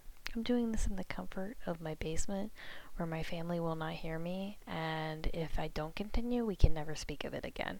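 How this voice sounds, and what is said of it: Half-whispered, quiet speech. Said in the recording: “I'm like half whispering”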